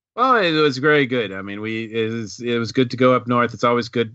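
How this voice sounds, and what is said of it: New England regional accent. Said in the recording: “you already got your accent back”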